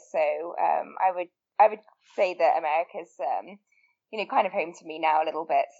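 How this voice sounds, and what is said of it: English accent. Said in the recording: “As you can probably tell from my accent, I'm not from the US originally. I'm originally from England”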